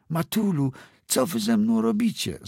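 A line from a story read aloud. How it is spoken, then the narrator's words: Called out. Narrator (Polish): zawołała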